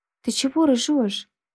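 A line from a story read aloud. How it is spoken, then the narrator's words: Exclamation. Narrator (Russian): воскликнул Майкл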